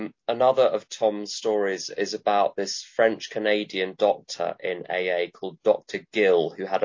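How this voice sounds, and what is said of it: Usual voice. Nothing is said of it.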